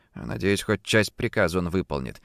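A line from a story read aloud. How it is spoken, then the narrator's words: Muttered under breath. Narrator (Russian): пробормотал я себе под нос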